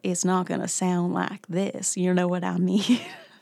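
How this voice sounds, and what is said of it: Deliberately bad Elvis impression. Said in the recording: “It's a horrible, horrible Elvis accent.”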